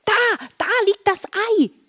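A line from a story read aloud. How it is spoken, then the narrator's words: Excited call. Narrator (German): rief Marla aufgeregt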